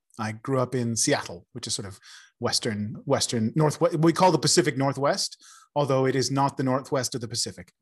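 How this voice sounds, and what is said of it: American accent. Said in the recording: “As you can probably tell from my accent, I'm originally from America.”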